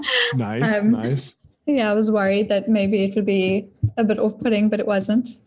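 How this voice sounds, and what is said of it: South African accent. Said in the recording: “I noticed your accent right away ... you're in Florida, but you're originally from South Africa.”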